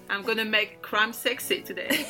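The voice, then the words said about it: Put-on French accent. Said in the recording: “People will fancy my French accent.”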